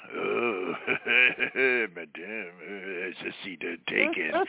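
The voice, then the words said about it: Put-on French accent. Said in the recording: “I'm going to do French just because of you and French-Canadian”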